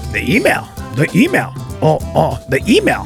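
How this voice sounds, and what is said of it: Bad cartoon character impression. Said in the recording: “worst Homestar Runner impression ever”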